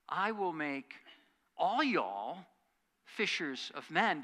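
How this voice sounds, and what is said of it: Put-on regional accent. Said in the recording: “Maybe not with quite that accent.”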